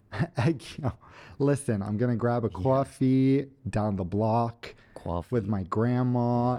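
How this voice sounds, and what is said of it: Put-on New York Italian-American accent. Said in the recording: “Say New York in a New York accent. ... You sound Italian-American.”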